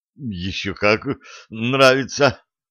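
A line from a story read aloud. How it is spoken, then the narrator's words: Groaning. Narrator (Russian): простонал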